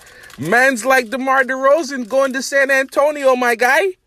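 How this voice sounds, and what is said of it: Put-on Toronto accent. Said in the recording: “That's my best Toronto. That's my best Toronto accent.”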